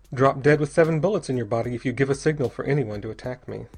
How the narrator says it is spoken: said Bell dryly

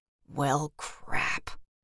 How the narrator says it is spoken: he whispered

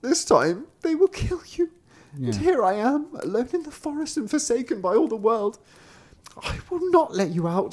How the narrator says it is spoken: The sister cried and said

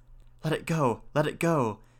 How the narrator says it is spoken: whispered the young men to each other

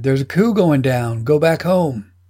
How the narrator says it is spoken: One of the Marines shouted

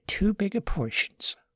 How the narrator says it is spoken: Margaret whispered to Martin

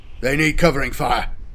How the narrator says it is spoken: Corpus barked

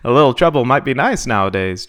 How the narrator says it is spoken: Jalen chuckled

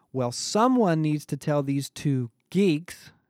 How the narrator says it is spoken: Becky said, raising her voice with every word

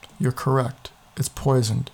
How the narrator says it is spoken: she said flatly

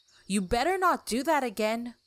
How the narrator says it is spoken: said to herself and shouted

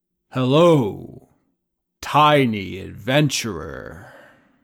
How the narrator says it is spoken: it says to you, in a deep, booming voice

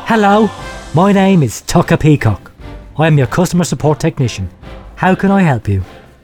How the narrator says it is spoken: sigh and say

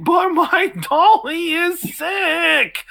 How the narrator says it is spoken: she's bawling and saying

